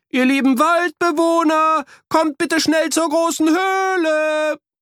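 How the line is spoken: Calling as loud as possible. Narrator (German): riefen, so laut sie konnten

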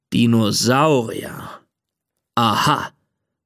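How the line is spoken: Father's growl. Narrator (German): knurrt Papa

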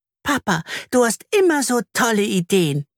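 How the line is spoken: Squeaky. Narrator (German): piepst Anna

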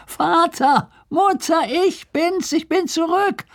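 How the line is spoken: Calling from afar. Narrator (German): rief er von Weitem

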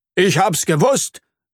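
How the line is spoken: Proud call. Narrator (German): ruft Herr Regenwurm stolz

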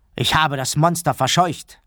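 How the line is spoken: Calling out. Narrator (German): rief er

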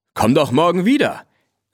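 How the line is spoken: Calling after. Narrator (German): rief Blackie hinterher

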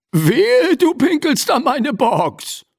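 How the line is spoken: Gruff booming voice. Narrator (German): polterte eine Stimme

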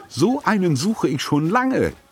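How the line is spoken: Exclaimed enthusiastically. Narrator (German): rief Tante Edda begeistert

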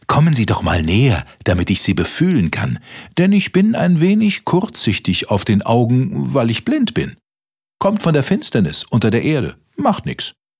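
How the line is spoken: Mole calling out. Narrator (German): rief der Maulwurf

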